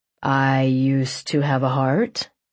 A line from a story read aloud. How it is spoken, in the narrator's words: he drawled